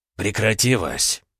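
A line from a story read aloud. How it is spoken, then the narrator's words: Tired, relieved sigh. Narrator (Russian): Устало, но с видимым облегчением вздохнул Полозов-старший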